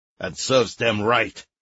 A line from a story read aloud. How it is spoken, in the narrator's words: growled the general